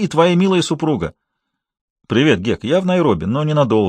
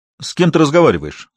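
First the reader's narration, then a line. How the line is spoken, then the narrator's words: Sharp question. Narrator (Russian): резко спросил Берни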